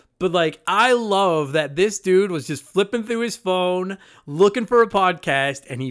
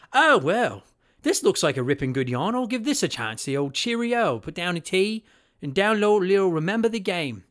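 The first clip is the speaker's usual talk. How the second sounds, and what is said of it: Attempted British accent, not very good. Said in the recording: “I'm going to try to attempt a British accent here that I can't promise is going to be good at all”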